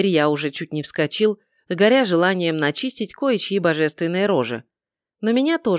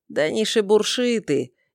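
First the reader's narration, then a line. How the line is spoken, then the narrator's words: Sly, mocking. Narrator (Russian): ехидно ухмыльнулся северный бог воровства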